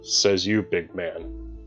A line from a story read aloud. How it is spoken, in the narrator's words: muttered